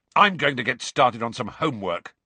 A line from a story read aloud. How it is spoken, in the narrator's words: said Ron angrily